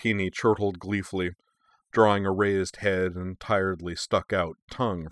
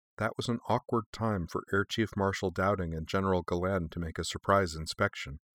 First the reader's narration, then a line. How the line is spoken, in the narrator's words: said Sonya quietly